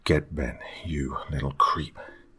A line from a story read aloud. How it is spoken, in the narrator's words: I muttered under my breath